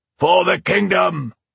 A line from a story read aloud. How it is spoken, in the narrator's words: they roared in response